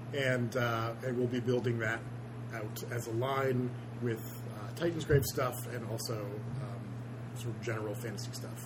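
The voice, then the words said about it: Quiet, strained, failing voice. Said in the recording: “could you try to speak up? ... I'm losing my voice already.”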